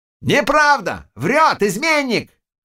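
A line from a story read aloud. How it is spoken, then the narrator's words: Shout. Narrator (Russian): крикнул Чернота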